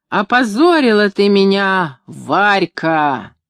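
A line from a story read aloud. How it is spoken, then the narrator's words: Sudden roar, unnatural voice. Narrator (Russian): вдруг взревел не своим голосом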